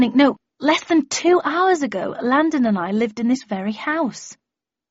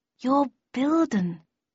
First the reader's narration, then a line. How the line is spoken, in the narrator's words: I murmured